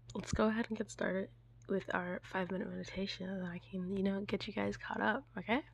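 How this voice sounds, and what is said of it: Slightly sick, off-sounding voice. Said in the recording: “A little under the weather, so that's why my voice is a little off”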